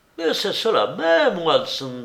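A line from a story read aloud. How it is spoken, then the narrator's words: Exclaiming. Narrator (French): s'écria Holmes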